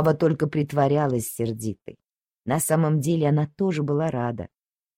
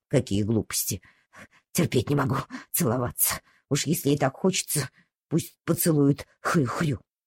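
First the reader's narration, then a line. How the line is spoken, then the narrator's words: Angry grumble. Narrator (Russian): Ава проворчала сердито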